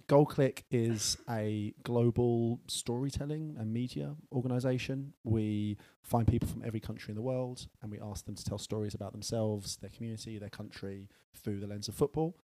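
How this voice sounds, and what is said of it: British English accent. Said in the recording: “We are based in the UK, as you can tell by the accent, probably.”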